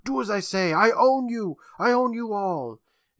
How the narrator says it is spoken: Visage yells out

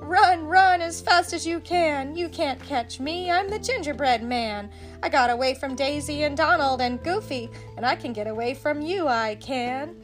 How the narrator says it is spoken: the gingerbread man only laughed and shouted

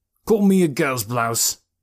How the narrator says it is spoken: growled Beach

